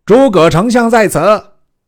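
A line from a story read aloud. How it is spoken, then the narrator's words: Shouted from a hilltop. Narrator (Chinese): 山头上大叫曰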